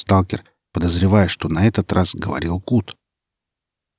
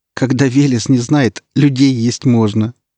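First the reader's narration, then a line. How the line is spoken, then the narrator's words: Laughing. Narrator (Russian): сквозь смех ответила Наденька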